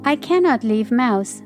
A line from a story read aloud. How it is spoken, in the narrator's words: sighed Thumbelina